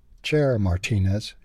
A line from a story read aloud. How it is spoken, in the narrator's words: Sherry said